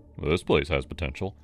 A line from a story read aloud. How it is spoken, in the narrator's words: he grunted